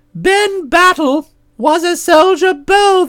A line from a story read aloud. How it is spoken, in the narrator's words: they cried out